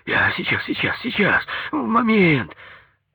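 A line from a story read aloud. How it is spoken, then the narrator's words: Hoarse sleepy voice. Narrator (Russian): раздался его хриплый с просонья голос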